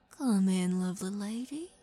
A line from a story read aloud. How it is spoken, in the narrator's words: Morton Cryver cooed with an unpleasant smile